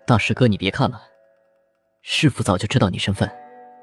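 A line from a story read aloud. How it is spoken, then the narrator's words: Sighing. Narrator (Chinese): 孟寻在旁叹气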